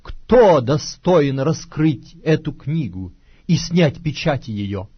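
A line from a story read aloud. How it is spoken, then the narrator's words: Loud powerful proclamation. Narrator (Russian): ангела сильного, провозглашающего громким голосом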